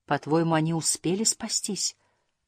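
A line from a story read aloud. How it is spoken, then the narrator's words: Whispered. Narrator (Russian): прошептала Фрекен Снорк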